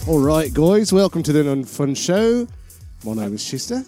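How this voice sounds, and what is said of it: Shifting mixed put-on accents, Irish-Australian. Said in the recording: “I just went through three different accents in like a heartbeat... That's not even a real accent. You sound like an Irish guy who grew up in Australia.”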